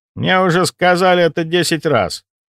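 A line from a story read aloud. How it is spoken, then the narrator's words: Grumbling. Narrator (Russian): проворчал граф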